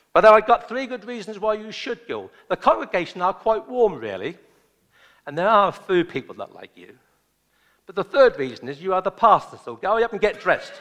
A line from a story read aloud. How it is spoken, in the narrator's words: the wise wife shouted back upstairs, and she said